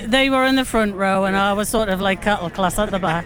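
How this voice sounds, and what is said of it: Newcastle (Geordie) accent. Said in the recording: “Now that accent, you're from Newcastle.”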